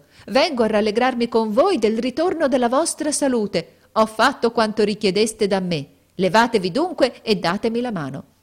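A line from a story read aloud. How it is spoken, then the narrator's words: Shouting. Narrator (Italian): gridò essa entrando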